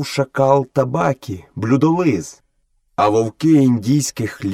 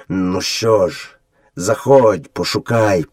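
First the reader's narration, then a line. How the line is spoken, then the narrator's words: Gloomy grumble, father wolf. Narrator (Ukrainian): похмуро буркнув батько вовк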